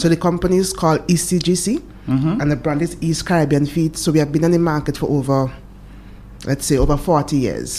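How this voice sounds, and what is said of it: Vincentian Caribbean accent. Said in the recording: “I'm from St. Vincent. ... I can hear the accent there.”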